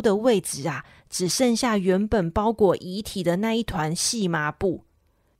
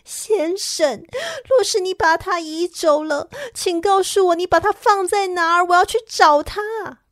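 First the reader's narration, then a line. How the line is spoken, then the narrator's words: Crying. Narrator (Chinese): 她哭着对园丁说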